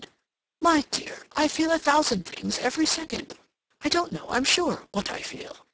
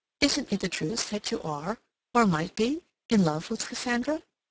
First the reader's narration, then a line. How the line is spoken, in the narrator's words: She said gently